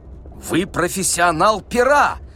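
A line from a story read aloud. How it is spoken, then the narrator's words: Shout. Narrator (Russian): закричал Лавуазьян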